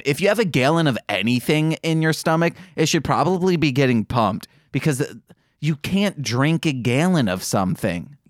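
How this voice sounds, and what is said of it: Michigan accent on A vowels. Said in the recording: “The way you're saying that just sounds weird. ... That's my Michigan accent coming out, guys. It's only with A's. ... I'm going full-on Michigan.”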